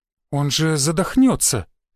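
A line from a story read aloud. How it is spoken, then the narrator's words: Uncertain waiter. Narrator (Russian): неуверенно проговорил один из официантов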